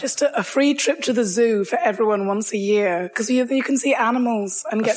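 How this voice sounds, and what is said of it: Sick, rough-sounding voice. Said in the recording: “Excuse my voice because I'm a bit sick.”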